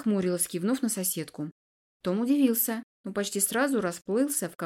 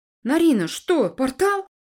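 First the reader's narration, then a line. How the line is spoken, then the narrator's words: Exclamation. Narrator (Russian): воскликнул Том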